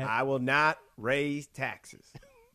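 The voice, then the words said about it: Impression of George H. W. Bush. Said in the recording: “Dana Carvey did an impression of George Bush.”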